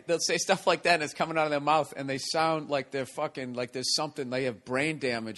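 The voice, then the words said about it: Strong Boston accent. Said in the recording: “a Boston accent, how bad it was ... I still have it pretty bad ... Yours is good ... But yours was hard”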